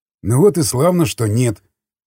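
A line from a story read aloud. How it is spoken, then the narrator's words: Snort. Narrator (Russian): хмыкнул крест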